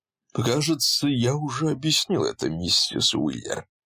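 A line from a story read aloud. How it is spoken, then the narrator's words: Patient sigh. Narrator (Russian): терпеливо вздохнул он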